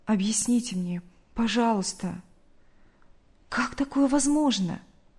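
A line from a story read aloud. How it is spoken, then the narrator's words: Tearful trembling voice. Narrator (Russian): Мария Ивановна вытерла слезы и дрожащим голосом ответила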